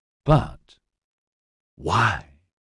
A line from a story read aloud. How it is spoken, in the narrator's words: She whispered